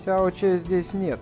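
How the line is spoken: Calm voice. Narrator (Russian): сказала спокойным голосом

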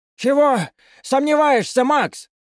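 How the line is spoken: Shout. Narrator (Russian): крикнул он

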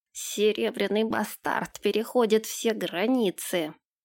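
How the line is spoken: Hiss, adviser. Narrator (Russian): прошипел советник

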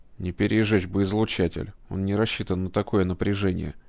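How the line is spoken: Mutter. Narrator (Russian): пробормотал кибернетик

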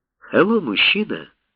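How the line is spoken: Plain. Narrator (Russian): сказала Эмили

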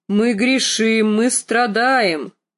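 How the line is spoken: Loud booming bass. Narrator (Russian): проговорил он гулким басом, куда громче, чем ее отец

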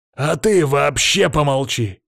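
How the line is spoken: Shouting. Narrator (Russian): выкрикнул Палыч

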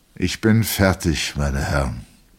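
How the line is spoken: Plain. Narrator (German): sagte der Regimentsarzt

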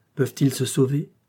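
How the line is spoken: Choked voice. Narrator (French): dit Blanche d'une voix étranglée

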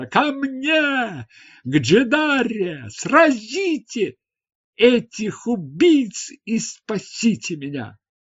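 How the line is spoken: Loud scream. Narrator (Russian): Джедара громко закричала

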